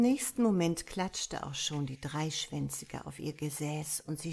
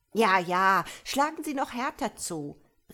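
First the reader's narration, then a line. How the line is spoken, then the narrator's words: Exclaiming. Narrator (German): rief Frau Kederfiel aus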